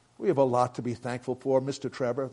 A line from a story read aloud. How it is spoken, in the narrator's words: the father said